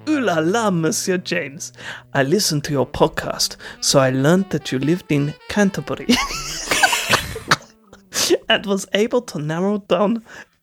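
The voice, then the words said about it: Put-on parody French accent. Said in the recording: “you sound like a representative for the Trade Federation. ... What accent is this? ... sounds like a parody of a French accent”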